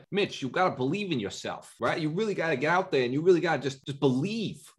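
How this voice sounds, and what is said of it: Imitated New York accent. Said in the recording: “he's got this crazy New York accent.”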